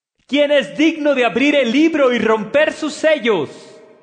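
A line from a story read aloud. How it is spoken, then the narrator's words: Loud powerful proclamation. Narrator (Spanish): un ángel poderoso que gritaba con fuerte voz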